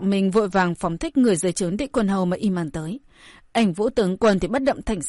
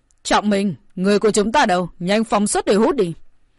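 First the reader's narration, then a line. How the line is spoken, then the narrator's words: Shout. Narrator (Vietnamese): địch quân hầu quát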